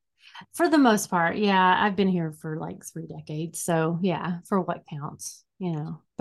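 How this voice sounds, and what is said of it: Unusual, Southern-sounding American accent. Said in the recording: “I have the weirdest accent. ... I feel like you were born farther south.”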